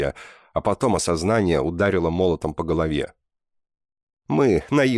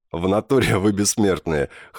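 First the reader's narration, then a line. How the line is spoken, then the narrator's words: Laughing. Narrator (Russian): хохотнул Гриня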